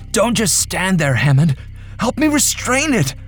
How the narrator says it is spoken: I cried

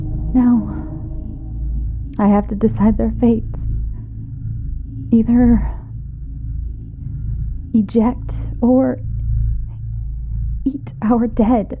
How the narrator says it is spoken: in a somber tone

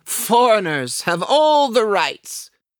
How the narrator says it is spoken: shouts the concierge on my right

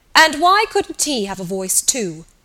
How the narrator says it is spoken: asked Freddy Malins sharply

